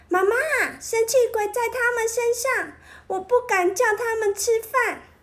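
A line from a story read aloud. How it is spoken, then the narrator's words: Shout. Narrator (Chinese): 大叫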